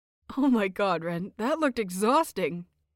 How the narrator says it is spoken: Phichit chuckled

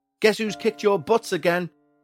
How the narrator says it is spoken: he'd shout after yet another victory

